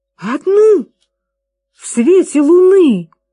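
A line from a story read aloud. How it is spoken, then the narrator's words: Exclaimed. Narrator (Russian): воскликнул миссис Уилкис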